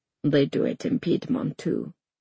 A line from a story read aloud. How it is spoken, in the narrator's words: Tristan mutters